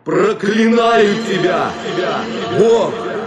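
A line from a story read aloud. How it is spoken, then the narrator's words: Hoarse shouting. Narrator (Russian): Осипшим голосом он кричал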